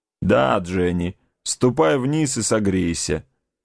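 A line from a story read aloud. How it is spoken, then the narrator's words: Grumbled. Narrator (Russian): проворчал он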